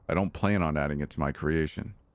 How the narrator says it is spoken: the doctor said

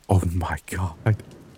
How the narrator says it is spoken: one of the nurses whispered

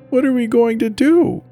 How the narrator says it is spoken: sobbed into my shoulder

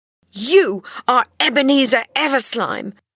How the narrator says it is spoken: she cried

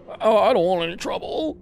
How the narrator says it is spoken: the owner whimpered

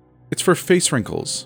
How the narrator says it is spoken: Mom laughed

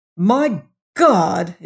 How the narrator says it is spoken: ejaculated

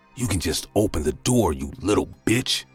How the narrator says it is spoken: said in a rusty, threatening voice

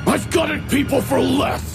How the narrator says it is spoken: He snarled

